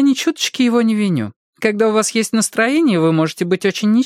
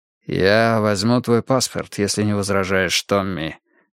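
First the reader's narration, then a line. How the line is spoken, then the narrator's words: Quiet. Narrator (Russian): тихо сказал Фриски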